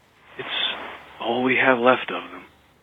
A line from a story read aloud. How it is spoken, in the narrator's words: the traveler whispered